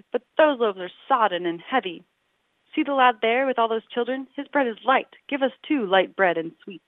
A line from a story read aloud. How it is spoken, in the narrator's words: they cried